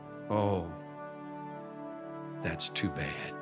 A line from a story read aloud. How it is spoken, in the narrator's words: Little boy quietly acknowledged